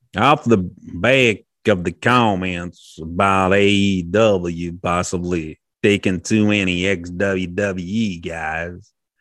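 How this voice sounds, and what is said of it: Put-on Deep South accent. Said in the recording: “can he make it Deep South? Can he date Deep South? ... Hold on, let me try.”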